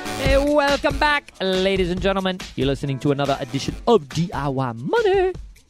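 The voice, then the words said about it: Odd put-on accent. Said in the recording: “what kind of accent was that?”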